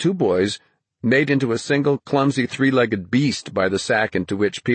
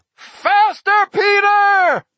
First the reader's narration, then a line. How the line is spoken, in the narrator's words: Roland bellowed, swinging a huge mug of mead with such enthusiasm